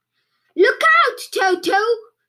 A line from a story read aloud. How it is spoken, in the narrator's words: shouted Humpy Rumpy